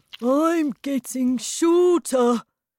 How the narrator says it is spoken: shouted Mr

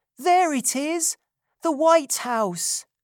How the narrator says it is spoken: cried Oliver, his heart beating fast with excitement

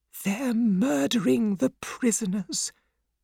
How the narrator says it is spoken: whispered Mr

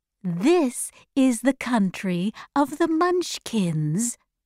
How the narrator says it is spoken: she said sweetly

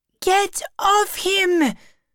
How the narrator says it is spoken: screamed Chloe

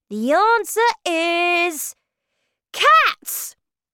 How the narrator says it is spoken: I shouted

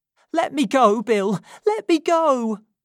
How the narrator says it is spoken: cried Nancy as she struggled against him

